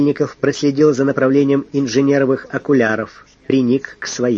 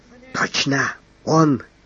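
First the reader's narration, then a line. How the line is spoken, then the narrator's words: Predatory whisper. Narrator (Russian): хищно прошептал надворный советник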